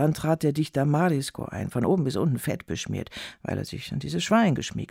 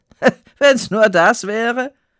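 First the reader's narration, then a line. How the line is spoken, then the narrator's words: Hearty laughing. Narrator (German): sagte sie herzhaft lachend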